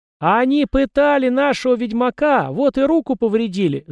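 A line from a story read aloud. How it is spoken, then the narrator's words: Shrill squeal, excitable girl. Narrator (Russian): завизжала какая-то впечатлительная девица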